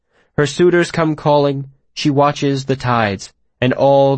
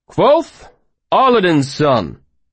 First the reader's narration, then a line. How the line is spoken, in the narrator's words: he read aloud to the room, his voice clear and strong